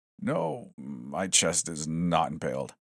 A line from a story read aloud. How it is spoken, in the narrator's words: groaned